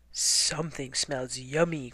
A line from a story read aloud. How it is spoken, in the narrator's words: growled the bear